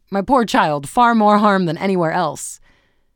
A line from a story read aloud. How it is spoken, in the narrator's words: exclaim